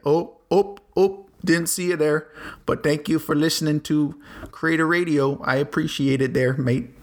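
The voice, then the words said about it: Awful put-on Canadian accent. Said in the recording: “That was an awful Canadian accent.”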